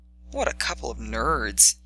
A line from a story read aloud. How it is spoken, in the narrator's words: he muttered